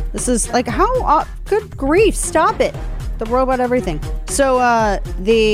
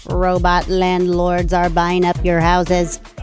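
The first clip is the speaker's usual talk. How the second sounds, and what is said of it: Robotic voice. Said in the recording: “I feel like I got to say this in a robot voice.”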